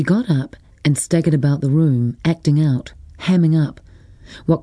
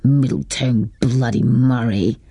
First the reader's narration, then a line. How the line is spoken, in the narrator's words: B mumbled